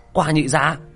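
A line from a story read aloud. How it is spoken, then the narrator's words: Man crying out. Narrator (Vietnamese): Hắc y nhân kêu lên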